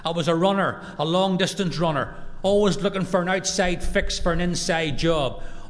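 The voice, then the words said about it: Irish accent. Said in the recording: “I'm standing in America with an Irish accent”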